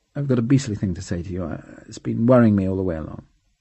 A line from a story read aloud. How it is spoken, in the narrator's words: he was so ashamed that he mumbled rather than said